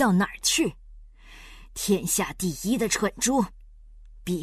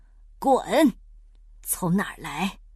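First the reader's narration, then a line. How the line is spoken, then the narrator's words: Stern harsh voice. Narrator (Chinese): 皮迪克厉声说道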